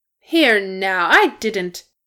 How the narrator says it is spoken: Glóin began to protest, but subsided with a grumble

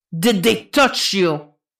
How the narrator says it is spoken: Jason growls

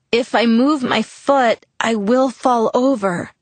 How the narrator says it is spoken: told him through gritted teeth

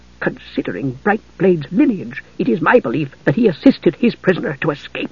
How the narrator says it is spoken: She lowered her voice, which was throaty, hissing

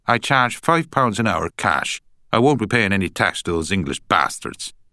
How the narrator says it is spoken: she added firmly

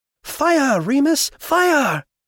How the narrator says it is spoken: he screamed

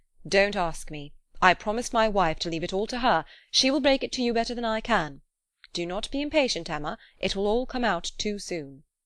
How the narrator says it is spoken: gravely replied

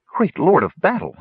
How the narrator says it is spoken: she exclaimed

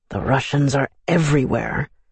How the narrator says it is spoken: muttered around the campfires

